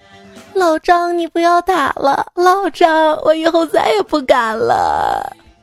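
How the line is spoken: Crying while speaking. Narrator (Chinese): 表妹边哭边说

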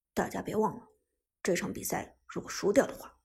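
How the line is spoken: Deep grave voice. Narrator (Chinese): 苏哲不由得沉声说道

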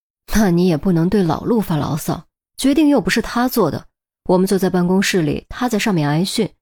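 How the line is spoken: Very quiet. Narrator (Chinese): 声音很小

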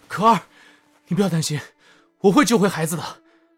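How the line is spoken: Loud calling. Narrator (Chinese): 陈南…大声呼唤道

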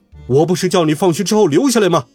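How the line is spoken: Angry shout from behind. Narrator (Chinese): 体育老师在背后气得大叫

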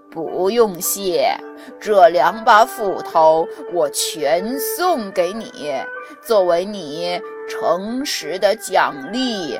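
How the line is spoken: Smiling old immortal. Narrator (Chinese): 老神仙 笑着说

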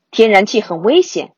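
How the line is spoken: Father shouting. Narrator (Chinese): 爸爸冲彼得喊道

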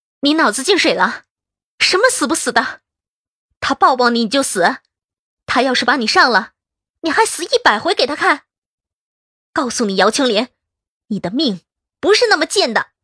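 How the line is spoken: Stern rebuke. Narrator (Chinese): 我厉声喝止道

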